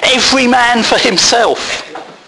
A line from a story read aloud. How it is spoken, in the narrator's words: The Congregationalists shouted